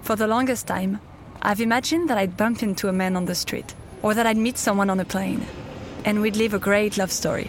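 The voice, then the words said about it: French accent. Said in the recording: “As you might have guessed from my accent, I'm French.”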